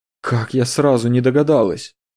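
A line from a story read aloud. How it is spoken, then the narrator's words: Sighing. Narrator (Russian): вздохнула Сабина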